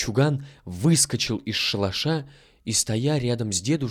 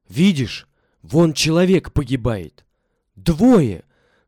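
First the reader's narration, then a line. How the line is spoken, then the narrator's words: Old man shouting. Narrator (Russian): крикнул старик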